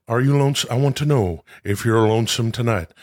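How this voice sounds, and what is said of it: Imitates another person's voice. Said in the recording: “your new impression as Elvis weeks before he died”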